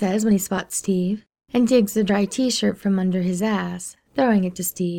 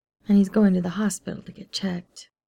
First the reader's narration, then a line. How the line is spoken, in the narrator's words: Steve says mournfully